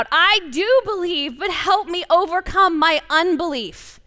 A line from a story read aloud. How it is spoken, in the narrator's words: The father instantly cried out